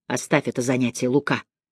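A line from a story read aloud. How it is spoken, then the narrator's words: Quiet, calm. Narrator (Russian): тихо сказал Андреа спокойным голосом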